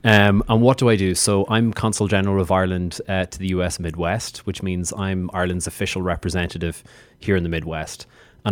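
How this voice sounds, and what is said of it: Irish accent. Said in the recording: “As you can hear from my accent, I'm from Ireland. I'm from the Emerald Isle.”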